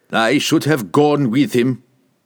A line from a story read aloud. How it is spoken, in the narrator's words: he growled at Brunner